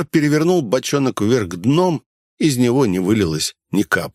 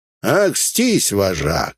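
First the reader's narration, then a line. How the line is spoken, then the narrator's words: Lazy smug snort. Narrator (Russian): вальяжно хмыкнул Гнус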